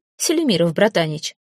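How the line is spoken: Exclaiming. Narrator (Russian): воскликнул

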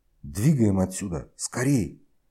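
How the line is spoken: Loud whisper. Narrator (Russian): Громко шепнул, чтобы остальные услышали

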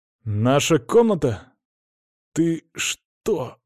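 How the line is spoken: Sigh. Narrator (Russian): вздохнул Димон

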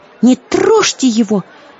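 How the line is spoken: Exclamation. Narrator (Russian): воскликнула Злата

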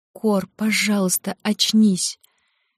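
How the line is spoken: Holding back sobs. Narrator (Russian): Девушка едва сдерживала рыдания

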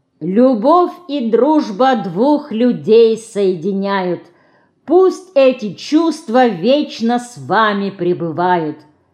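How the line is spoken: Loud. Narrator (Russian): громко сказал он

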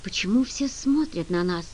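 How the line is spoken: Whispered question. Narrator (Russian): шепотом спросила Генри

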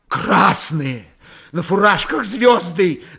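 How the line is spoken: Muffled shout. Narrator (Russian): наконец глухо выкрикнул Фомин

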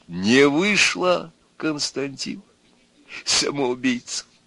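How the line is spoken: Involuntary chuckle. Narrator (Russian): Он опять невольно хохотнул

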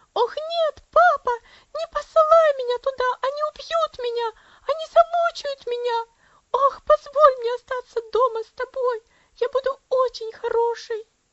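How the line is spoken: Wild scream. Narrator (Russian): Элси дико закричала

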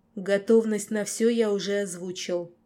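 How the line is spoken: Growling pack alpha. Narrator (Russian): прорычал Альфа стаи Северных гор

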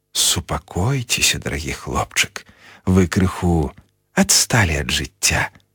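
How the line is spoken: Kind, gentle. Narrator (Belarusian): ласкава сказаў Дамблдар

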